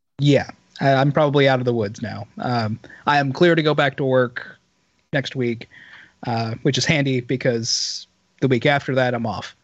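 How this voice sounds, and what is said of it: Raspy, hoarse voice. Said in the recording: “losing my voice... As bad as I may sound now... your voice has like this rasp to it... You just have this rasp”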